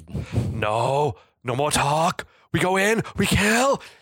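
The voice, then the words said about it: Imitates a movie character's voice. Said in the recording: “that's a good impression.”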